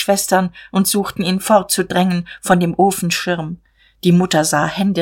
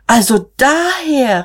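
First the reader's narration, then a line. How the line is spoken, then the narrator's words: Calling out. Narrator (German): rief Magda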